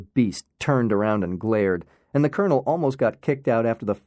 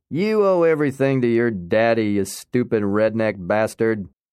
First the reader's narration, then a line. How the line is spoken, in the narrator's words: the colonel could not keep himself from swearing while he taunted